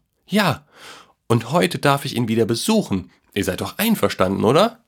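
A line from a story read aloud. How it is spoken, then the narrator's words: Boy calling after. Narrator (German): rief der Junge hinterher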